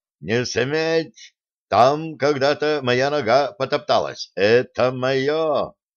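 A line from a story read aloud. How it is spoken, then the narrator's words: Shouting hoarse. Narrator (Russian): до хрипоты кричал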